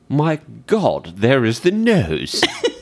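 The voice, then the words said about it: Put-on British accent. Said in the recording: “That's a pretty good... That's my British... accent you've got there.”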